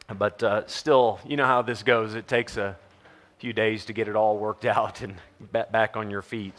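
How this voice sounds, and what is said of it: Voice still a bit strained. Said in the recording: “My voice is doing a little bit better, as you might can hear.”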